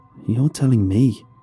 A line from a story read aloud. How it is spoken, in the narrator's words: I muttered